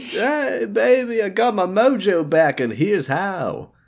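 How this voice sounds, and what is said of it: Austin Powers character voice. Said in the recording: “doing the Austin Powers voice”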